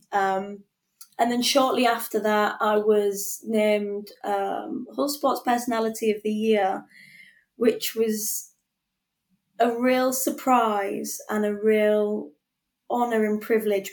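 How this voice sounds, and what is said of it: Thick northern English accent. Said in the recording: “I've always had this thick northern accent. ... I've always had this really thick accent.”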